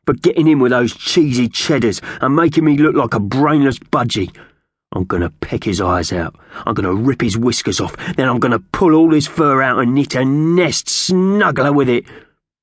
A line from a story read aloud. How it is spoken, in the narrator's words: spat